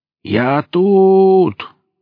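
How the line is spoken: Shout. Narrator (Russian): крикнул Велес

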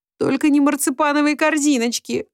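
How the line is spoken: Pleading. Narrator (Russian): взмолилась

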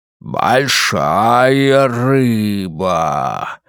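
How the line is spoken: Low greedy exclamation. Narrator (Russian): Низким жадным голосом воскликнул мужчина в черном костюме

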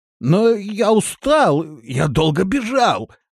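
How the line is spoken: Whining. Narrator (Russian): захныкал Рохля

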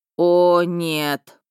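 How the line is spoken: Moaned. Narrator (Russian): простонал Миха

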